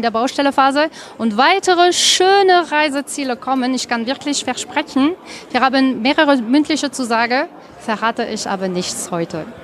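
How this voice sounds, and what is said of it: Slight foreign accent speaking German. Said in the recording (German): “Welch ein schöner Akzent. ... Akzent hat ... wenn jemand sich Mühe gibt, Deutsch zu sprechen und dann einen kleinen Akzent hat”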